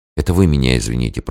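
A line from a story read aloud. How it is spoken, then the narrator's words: Embarrassed whisper. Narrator (Russian): прошептала она мучительно краснея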